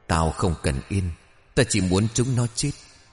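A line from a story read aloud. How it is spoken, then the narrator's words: Trembling yet clear voice. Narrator (Vietnamese): một giọng nói vang lên run rẩy nhưng thanh thoát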